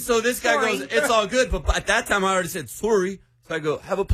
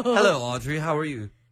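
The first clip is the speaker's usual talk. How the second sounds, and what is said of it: Put-on British accent. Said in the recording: “my British alter ego came out ... That was really bad ... Y'all have a British off right now.”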